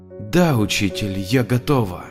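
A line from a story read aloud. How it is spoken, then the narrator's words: Quiet reply. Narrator (Russian): Бескрылый невысокий ангел тихо ответил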